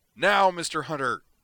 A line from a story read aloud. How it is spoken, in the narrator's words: Griffin roared